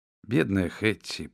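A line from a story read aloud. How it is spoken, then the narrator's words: Quieter voice. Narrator (Russian): продолжала более тихим голосом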